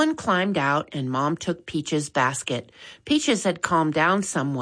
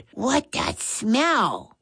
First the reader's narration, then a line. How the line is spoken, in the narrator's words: Maddie whispered